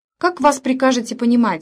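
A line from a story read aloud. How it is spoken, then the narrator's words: Sharp question after pause. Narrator (Russian): резко спросил принц после минутной паузы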